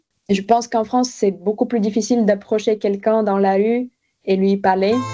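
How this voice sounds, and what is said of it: Slight foreign accent in French. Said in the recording (French): “j'ai un petit accent”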